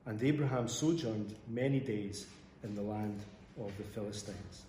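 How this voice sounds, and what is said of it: Scottish accent. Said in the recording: “I just love the Scottish accent so much that I wanted to hear a bit more.”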